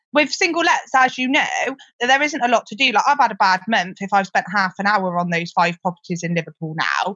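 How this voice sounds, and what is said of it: Gloucestershire English accent. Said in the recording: “I'm from Gloucester. You can probably tell that from my accent.”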